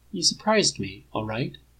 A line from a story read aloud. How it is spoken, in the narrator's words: admits quietly